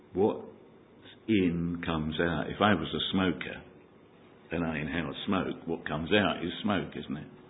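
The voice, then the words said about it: Cockney London accent. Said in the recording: “Gives away my Cockney accent... My tongue tells you where I hail from... E17”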